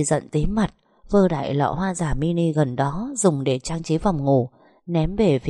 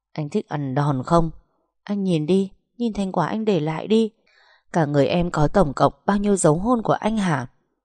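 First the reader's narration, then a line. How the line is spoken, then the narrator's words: Through gritted teeth. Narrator (Vietnamese): Cô gằn giọng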